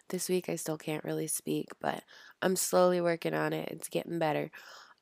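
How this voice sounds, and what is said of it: Sick-sounding voice. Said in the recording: “As you can tell, I sound a little sick.”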